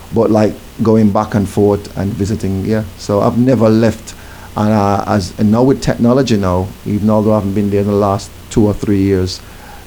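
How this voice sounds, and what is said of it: Jamaican accent with British twang. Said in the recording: “I might have a British twang, but you can still hear the Jamaican undertone there.”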